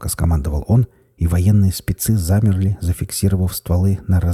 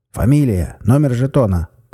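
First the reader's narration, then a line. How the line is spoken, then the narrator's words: Shouted reply. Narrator (Russian): прокричал в ответ Серов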